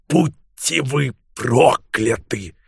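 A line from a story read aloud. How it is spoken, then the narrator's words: Growl. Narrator (Russian): прорычал он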